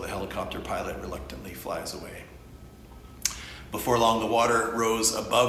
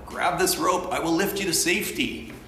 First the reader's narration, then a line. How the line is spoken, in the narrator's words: The pilot shouts down